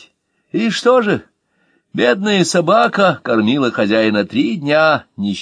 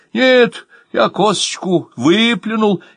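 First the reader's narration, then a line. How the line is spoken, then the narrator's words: Frightened. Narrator (Russian): испуганно сказал Ваня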